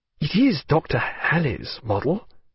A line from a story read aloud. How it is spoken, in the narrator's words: said Stephen, in a low voice